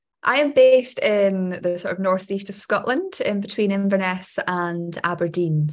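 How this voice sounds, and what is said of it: Scottish accent. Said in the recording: “Scottish accents”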